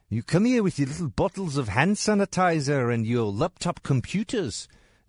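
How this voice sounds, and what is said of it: Leonardo DiCaprio's South African accent. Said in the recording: “South African has got to be like at the very top. It's really hard ... Leonardo DiCaprio in that movie ... Blood Diamond ... It's really funky accent. Sounds pretty cool sometimes.”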